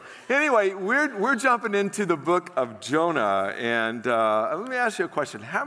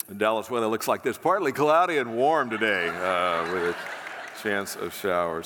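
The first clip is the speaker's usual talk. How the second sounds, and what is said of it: Radio DJ voice, slightly congested. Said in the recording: “I caught a cold on the way back ... I've got a little bit of FM DJ voice working”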